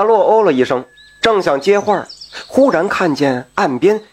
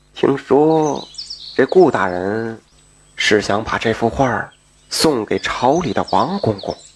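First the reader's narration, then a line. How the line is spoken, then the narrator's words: Lowered voice. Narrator (Chinese): 他又压低声音说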